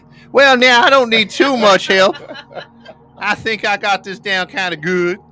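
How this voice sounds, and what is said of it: Put-on Southern accent. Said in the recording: “if you're Southern, we need you to talk. So you guys can show Todd and Matt how it's done ... Do the voice ... That sounds about right ... Yours is to another level.”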